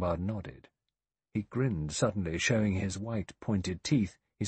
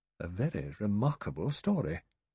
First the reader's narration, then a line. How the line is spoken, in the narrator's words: The judge murmured